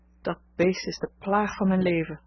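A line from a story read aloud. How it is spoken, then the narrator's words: Sighing woman. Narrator (Dutch): zuchtte ze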